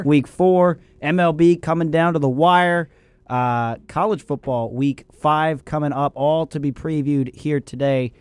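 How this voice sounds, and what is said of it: Voice sounds rough and unwell. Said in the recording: “my voice sounds awful”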